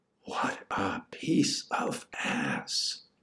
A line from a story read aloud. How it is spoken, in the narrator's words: Clarence said, in a whisper